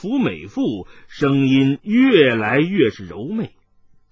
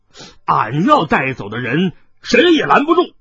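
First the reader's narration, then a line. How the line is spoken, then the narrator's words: Angry. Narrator (Chinese): 海大少怒道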